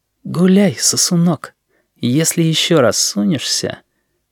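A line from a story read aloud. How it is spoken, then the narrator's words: Whisper. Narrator (Russian): Шепотом в спину Сережи Грачев сказал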